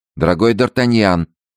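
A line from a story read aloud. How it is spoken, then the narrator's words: Said sadly. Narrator (Russian): сказал Рауль, печально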